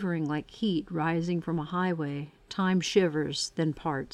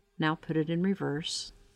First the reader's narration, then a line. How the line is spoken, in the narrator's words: says calmly